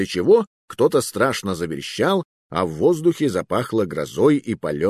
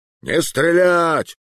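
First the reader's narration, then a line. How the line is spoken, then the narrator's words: Loud booming bark. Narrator (Russian): гаркнула луженая глотка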